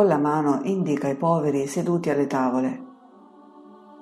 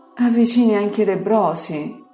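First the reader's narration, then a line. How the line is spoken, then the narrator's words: Soft, pleading. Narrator (Italian): dice sommessa e supplichevole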